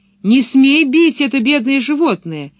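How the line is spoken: Shouting. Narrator (Russian): крикнула она Блумстерлунду

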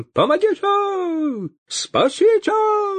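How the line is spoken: Wild, unnatural howl. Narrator (Russian): Завопил поп не своим голосом

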